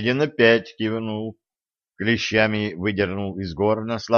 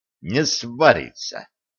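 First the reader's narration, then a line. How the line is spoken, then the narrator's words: Young man's breathed reply. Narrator (Russian): выдохнул парень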